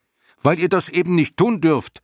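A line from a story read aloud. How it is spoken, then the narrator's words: Shouting. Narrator (German): schrie Bastian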